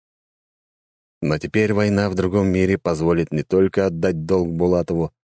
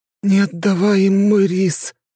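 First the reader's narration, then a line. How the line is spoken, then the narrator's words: Forced out, fainting. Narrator (Russian): выдавил из себя портальщик и окончательно потерял сознание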